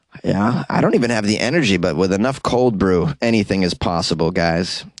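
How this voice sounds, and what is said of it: Messed-up, unwell-sounding voice. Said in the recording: “my voice is still messed up like this”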